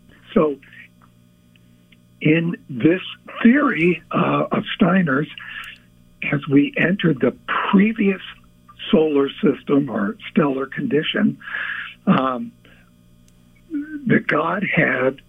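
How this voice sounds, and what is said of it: Hoarse, failing voice. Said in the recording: “I'm losing my voice here”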